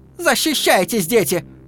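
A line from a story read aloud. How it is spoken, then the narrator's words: Shout. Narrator (Russian): крикнула она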